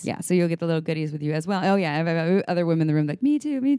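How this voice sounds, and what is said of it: Talking very fast. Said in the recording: “I'm talking so fast.”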